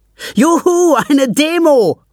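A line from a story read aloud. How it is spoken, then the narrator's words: Calling out. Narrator (German): ruft Anton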